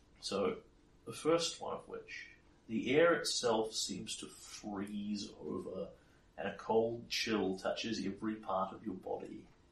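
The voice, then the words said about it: Portentous dramatic reading voice. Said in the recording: “in a portentous voice”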